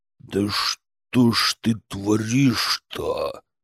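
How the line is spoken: Quiet hiss. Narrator (Russian): Тихо прошипел Мерзлов

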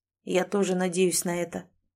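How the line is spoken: Gloomy reply. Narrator (Russian): мрачно ответил Сэм

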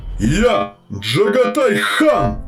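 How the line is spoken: Frenzied shout. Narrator (Russian): закричал он столь неистово

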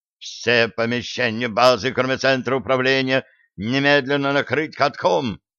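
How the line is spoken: Sergeant major barking. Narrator (Russian): рявкнул фельдфебель

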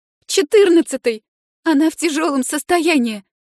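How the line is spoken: Sobbing girl. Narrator (Russian): Девушка снова всхлипнула

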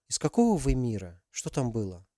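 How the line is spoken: Quiet question. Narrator (Russian): тихо спросила Алиса

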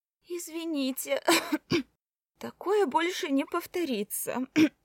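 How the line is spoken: Hoarse, coughing, over phone. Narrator (Russian): Кашляя в трубку, хрипела Кора

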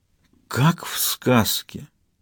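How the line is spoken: Whispered. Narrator (Russian): прошептала Самсуд

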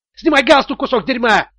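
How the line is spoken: Yelling. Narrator (Russian): вопил Тони

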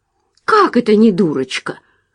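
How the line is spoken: Indignant, surprised exclamation. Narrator (Russian): воскликнула она возмущенно и почти удивленно

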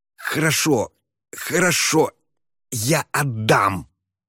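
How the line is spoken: Hissed. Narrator (Russian): прошипел он

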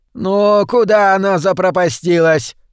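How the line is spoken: Shout. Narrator (Russian): закричала она

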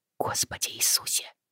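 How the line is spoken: Whisper through numb lips. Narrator (Russian): прошептала Бриана, онемевшими губами

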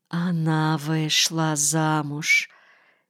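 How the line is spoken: Quiet. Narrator (Russian): тихо ответил Крах

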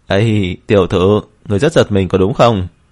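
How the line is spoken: Laughing loudly, relaxed. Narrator (Vietnamese): Tống Hoài thoải mái cười to

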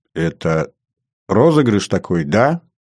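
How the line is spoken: Uncertain. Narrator (Russian): неуверенно сказала Светлана

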